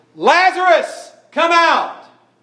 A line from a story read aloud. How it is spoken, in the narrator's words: this yelling, this loud crying by the Lord Jesus Christ